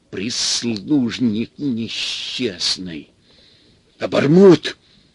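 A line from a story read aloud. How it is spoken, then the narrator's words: Hissed. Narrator (Russian): Лысый прошипел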